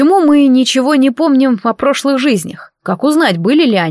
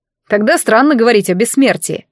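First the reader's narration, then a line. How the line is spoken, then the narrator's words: Scoffing snort, young man. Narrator (Russian): фыркнул какой-то парень с первого ряда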